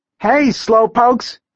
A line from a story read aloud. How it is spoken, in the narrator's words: Taylor yelled